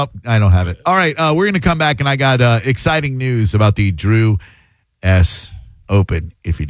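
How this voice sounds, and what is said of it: Usual voice. Nothing is said of it.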